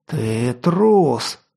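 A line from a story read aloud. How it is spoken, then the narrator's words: Strained hiss, big man. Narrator (Russian): шипя выдавил из себя детина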